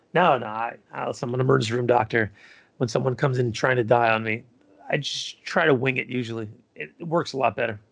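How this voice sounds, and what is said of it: Sarcastic deadpan delivery. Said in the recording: “That was sarcastic”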